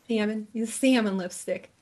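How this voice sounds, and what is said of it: Put-on New Jersey accent. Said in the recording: “That's my New Jersey accent”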